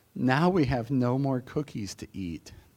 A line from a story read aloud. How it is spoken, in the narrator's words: Toad said sadly